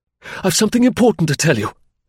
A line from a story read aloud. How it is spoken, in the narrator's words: he cried desperately in French